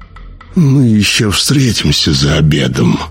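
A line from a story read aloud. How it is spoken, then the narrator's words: Purring. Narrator (Russian): промурлыкал доктор Войден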